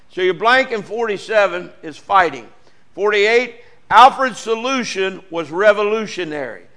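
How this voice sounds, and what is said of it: Southern Ohio accent. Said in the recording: “my Southern Ohio accent”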